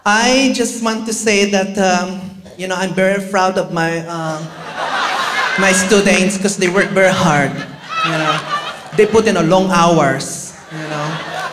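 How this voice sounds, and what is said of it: Speaks English with a foreign accent. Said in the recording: “if you can tell by my accent”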